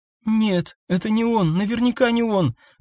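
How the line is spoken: Breathless exhale. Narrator (Russian): выдохнула

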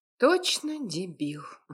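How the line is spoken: Heavy sigh. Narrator (Russian): тяжело вздохнула

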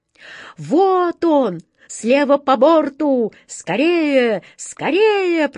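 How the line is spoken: Piercing bird cry. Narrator (Russian): пронзительно закричала сверху ласточка

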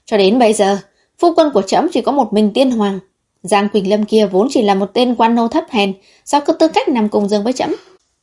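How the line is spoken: Furious raised voice. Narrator (Vietnamese): Thần Chiếu giận tím mặt, cao giọng

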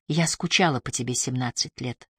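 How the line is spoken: Mumbling. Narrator (Russian): пробормотала

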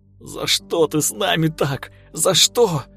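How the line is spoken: Sobbing shout. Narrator (Russian): сквозь рыдания выкрикивал он

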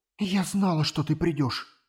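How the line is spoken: Tearful whisper. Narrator (Russian): чуть не плача прошептала она

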